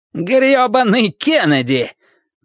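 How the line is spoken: Nearly shouting. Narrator (Russian): Мэрит чуть не кричал

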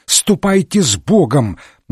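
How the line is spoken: Shout. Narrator (Russian): выкрикнул отец Браун

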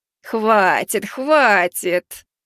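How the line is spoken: Cook purring contentedly. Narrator (Russian): Довольной кошкой, к которой приласкались котята, замурлыкала повариха

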